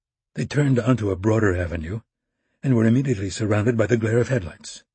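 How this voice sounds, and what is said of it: Usual voice. Nothing is said of it.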